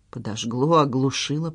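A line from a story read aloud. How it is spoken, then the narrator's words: Muttering. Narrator (Russian): пробормотала Надежда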